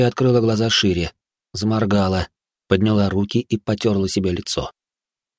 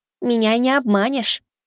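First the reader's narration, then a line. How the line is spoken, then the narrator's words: Declared in childlike voice. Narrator (Russian): заявил бог смерти детским голоском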